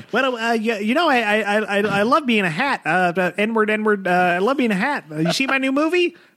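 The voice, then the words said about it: Imitates another person's voice. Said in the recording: “My classic Tarantino impression.”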